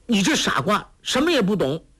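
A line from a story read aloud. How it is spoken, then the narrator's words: Angry. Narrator (Chinese): 黄蓉怒道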